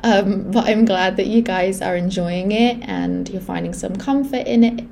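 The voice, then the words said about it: Slightly rough, off-sounding voice. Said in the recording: “my voice is still a bit dodgy from where I was ill a couple weeks ago”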